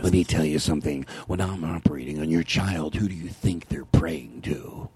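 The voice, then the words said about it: Whispery imitation of another person's voice. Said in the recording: “I just like a whispering voice, and I whisper better than anyone like this ... You were just doing an impression.”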